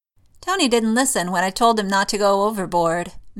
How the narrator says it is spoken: May grumbles

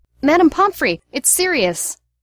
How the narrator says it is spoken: Peter, who had been trotting worriedly beside them, lit off ahead, shouting

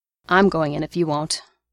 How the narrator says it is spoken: Barnes growled

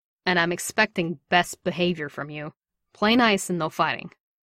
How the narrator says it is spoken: And then more sharply

